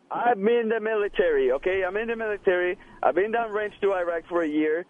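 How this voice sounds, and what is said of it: Speaks with a noticeable accent. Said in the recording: “What's with the accent? ... Then what's with the accent?”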